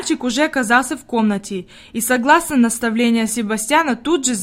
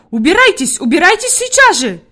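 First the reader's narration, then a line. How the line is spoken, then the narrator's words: Shouting. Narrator (Russian): закричала Фрейлин Наттермайер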